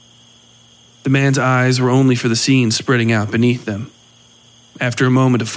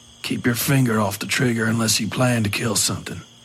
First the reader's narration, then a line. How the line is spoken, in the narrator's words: the priest said in a low voice